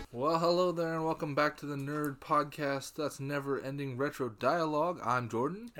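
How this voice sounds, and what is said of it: Congested, sick-sounding voice. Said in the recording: “I have a chest cold, so my voice is going to sound funny”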